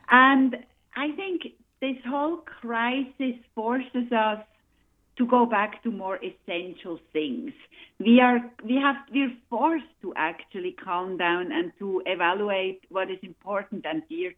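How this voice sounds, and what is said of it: Swiss accent. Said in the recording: “as everybody probably knows from my accent... I am from Switzerland”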